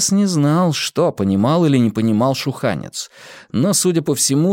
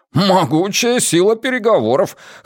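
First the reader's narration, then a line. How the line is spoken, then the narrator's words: Short laugh. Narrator (Russian): хохотнул Джеспер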